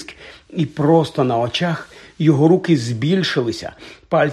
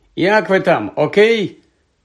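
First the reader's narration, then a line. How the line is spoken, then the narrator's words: Low hoarse voice. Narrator (Ukrainian): Його голос був не його, він був низьким і хриплим, як у Гойла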